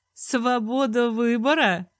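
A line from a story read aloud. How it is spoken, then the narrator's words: Laughing. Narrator (Russian): Рассмеялась я этакой расчетливости папаши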